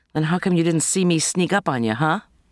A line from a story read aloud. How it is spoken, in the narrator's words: Kate laughed